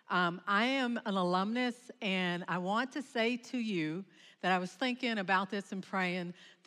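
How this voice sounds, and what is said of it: Slight Southern Kentucky accent. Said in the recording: “come 550 miles down in southeast Kentucky ... Do you hear that little accent?”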